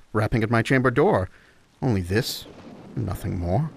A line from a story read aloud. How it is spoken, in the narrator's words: I muttered